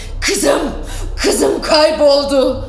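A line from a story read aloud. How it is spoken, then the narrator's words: Shouted. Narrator (Turkish): diye bağırdı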